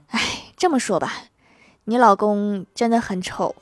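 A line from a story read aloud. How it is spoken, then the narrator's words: Sighing. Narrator (Chinese): 医生叹了口气说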